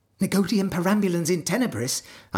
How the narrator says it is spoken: suggested eagerly

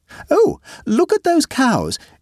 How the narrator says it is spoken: exclaimed the aunt

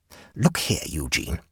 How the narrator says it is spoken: whispered hoarsely

